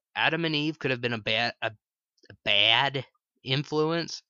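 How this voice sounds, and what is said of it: Slight put-on Chicago accent. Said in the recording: “I adopted a little bit of a Chicagoan accent there for a second.”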